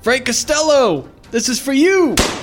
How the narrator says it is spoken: out of brazen overconfidence, shouts

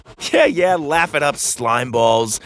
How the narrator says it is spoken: Doug laughed

